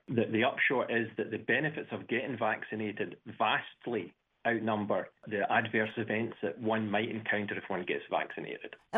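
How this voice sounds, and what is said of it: Scottish accent. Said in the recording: “Am I noticing an Irish accent? ... Scottish.”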